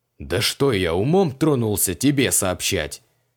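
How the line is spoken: Contemptuous snort. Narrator (Russian): презрительно фыркнул креол

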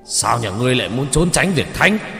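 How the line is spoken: Angry shout. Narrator (Vietnamese): đập bàn mà quát lên

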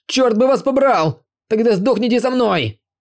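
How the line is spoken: Furious shouting. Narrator (Russian): закричал им вслед боевик

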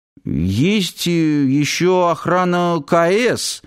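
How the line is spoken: Uncertain. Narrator (Russian): неуверенно проговорил Нанос

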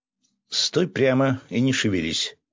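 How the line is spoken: Stern. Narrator (Russian): строго сказала Таня

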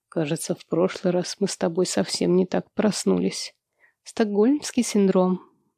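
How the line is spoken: Mumble. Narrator (Russian): бормочу в ответ

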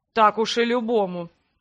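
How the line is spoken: Grumbled. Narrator (Russian): пробурчал император

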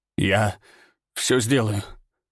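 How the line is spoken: Strained forced words. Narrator (Russian): выдавил

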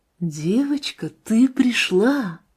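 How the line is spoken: Joyful whisper. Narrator (Russian): радостно прошептала она

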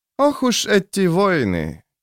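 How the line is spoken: Heavy, weary sigh. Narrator (Russian): тяжело вздохнул Сульфур, словно говорил о незаладившейся погоде

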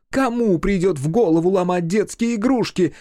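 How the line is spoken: Yelling mother. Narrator (Russian): вопила мамаша

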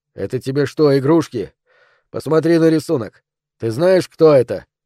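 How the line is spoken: Threatening. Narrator (Russian): Теперь Роберт говорил угрожающим тоном

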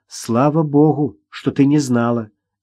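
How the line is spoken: Sad, smiling. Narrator (Russian): грустно улыбнулась Ирина

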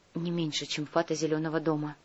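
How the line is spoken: Old woman's faint whisper. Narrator (Russian): почти неслышно прошептала старушка

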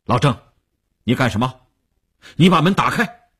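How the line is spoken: Stern harsh command. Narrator (Chinese): 吴长天厉声喝令

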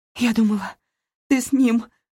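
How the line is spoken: Sobbing. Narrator (Russian): всхлипнула я

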